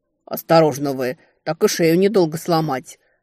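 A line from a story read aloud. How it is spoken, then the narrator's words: Barking shout. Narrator (Russian): рявкнул спаситель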